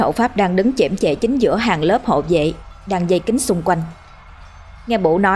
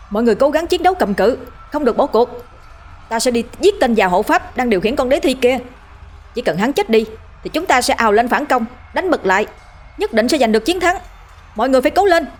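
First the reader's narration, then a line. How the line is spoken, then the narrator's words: Straining, very loud shout. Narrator (Vietnamese): cố gào giọng hét thật lớn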